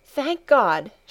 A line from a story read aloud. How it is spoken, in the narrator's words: she exclaimed